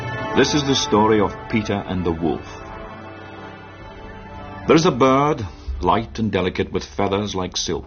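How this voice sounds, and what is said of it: English with Scottish accent. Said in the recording (French): “dans un anglais incroyable ... avec un accent écossais ... l'accent écossais de... c'est James Bond, le premier”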